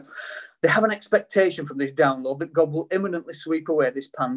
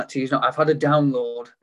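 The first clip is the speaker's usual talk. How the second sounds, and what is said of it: Very broad American accent. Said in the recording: “in a very broad American accent.”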